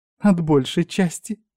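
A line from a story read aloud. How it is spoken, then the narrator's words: Muffled giggle. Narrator (Russian): хихикнула Мика, прикрыв рот ладошкой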